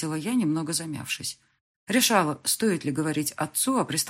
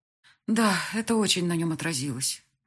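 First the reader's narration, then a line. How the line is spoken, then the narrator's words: Sigh. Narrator (Russian): вздохнула я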